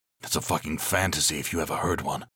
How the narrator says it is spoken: he muttered to himself

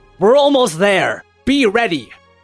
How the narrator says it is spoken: he yells to them and to the crowd

